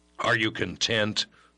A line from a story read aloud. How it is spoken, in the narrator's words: the boy demanded stiffly when he had his voice well in rein